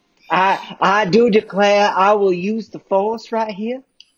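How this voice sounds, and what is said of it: Put-on Southern US accent. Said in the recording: “she has a southern accent now.”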